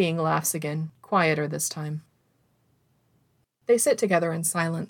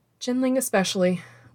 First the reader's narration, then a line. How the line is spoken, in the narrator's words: Wei Wuxian agrees, chuckling